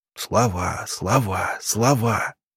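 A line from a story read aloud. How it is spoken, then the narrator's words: Whispering. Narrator (Russian): Рябинин зашептал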